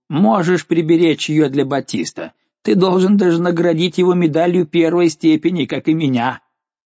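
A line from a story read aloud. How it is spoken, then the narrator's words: Shouted. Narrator (Russian): крикнул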